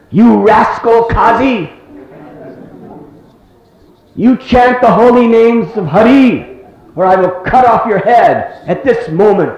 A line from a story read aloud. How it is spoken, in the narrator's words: he screamed out in a loud voice